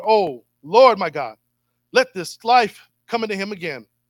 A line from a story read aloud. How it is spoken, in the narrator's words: cried to the Lord